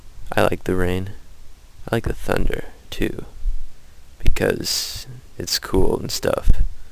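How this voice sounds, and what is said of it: Low, tired voice. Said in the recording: “I'm kind of tired right now. And that's why my voice is so low and stuff.”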